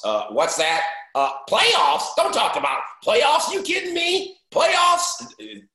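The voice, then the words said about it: Jim Mora impression. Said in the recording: “your impression was really good ... I give you a lot of credit for your Jim Mora impression”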